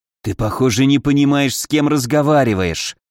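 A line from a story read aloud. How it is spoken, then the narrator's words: Seething hiss. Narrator (Russian): явно закипая, прошипел Павлин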